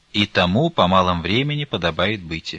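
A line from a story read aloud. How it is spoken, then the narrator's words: Gloomy. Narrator (Russian): мрачно поглядев, сказала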